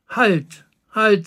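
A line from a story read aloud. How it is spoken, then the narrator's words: Plain. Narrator (German): sagte er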